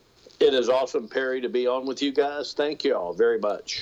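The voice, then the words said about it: Texas accent. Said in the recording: “love that Texas accent”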